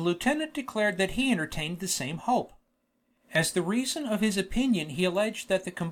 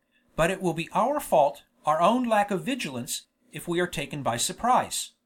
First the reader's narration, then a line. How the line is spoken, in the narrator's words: said the lieutenant, calmly